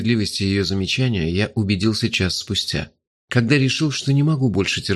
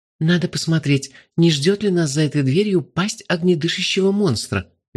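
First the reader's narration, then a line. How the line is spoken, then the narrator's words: Cheerful rapid chatter. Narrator (Russian): весело тараторила она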